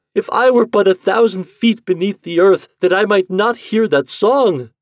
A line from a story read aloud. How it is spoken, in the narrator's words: cried the wife